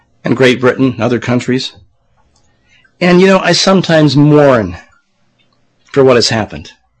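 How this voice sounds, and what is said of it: Strained, failing voice. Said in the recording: “I'm losing my voice again.”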